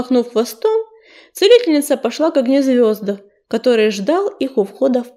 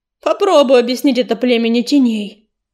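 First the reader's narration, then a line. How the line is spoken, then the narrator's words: Snort. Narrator (Russian): фыркнул Крутобок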